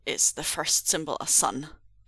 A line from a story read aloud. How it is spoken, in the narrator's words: asked Meng Zhuo tightly